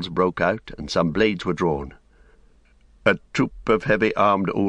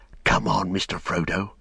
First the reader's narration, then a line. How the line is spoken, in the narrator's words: he whispered